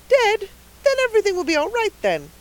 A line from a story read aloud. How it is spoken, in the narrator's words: cried the rosy lady jubilantly